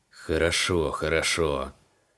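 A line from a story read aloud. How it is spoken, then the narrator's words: Hissed. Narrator (Russian): Прошипел креол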